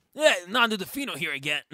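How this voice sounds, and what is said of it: Imitates another person's voice. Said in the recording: “I love doing the Nando voice”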